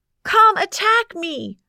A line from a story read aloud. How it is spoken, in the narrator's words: yelled Diamond